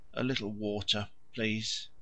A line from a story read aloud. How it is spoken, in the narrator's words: As soon as he could speak, he murmured, his eyes still closed